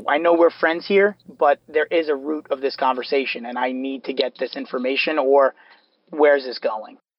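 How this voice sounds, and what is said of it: New York accent. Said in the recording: “a New York accent ... you're from New York, aren't you?”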